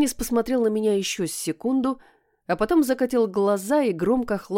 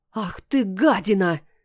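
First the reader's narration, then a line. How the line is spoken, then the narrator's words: Hissing. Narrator (Russian): зашипела я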